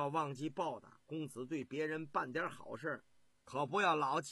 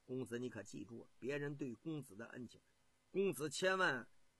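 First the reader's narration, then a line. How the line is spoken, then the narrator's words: Quiet whisper. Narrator (Chinese): 朱亥小声对公子信陵君说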